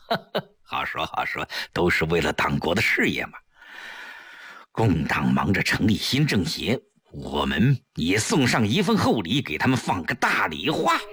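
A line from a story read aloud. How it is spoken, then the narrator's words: Laughing. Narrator (Chinese): 程寒三一笑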